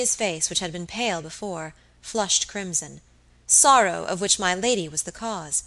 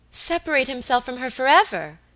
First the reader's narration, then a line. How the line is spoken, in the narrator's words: exclaimed Alicia